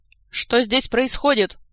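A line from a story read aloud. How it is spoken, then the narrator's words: Barked from doorway. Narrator (Russian): с порога рявкнул полковник Суру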